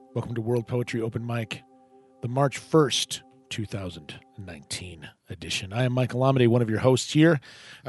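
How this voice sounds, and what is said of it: Rough, hoarse voice. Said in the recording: “My voice sounds a little rough ... the voice kind of issues came back”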